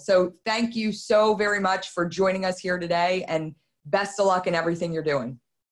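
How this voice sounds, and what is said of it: Philadelphia accent. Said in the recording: “It's good to hear that Philly accent again, too. I missed it.”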